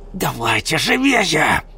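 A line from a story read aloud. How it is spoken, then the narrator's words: Woman hissing. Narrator (Russian): прошипела женщина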